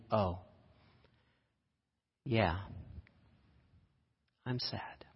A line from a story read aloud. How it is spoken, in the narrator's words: Melissa quietly